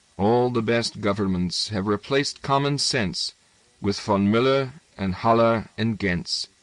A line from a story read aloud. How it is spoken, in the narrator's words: He sang under his breath